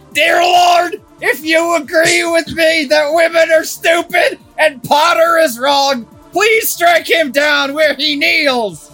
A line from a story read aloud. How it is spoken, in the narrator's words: he shouted